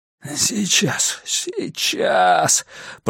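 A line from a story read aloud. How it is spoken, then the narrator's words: Groan. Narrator (Russian): простонал компьютерщик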